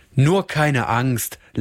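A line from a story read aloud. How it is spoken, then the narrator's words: Laughing. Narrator (German): lachte der Rabe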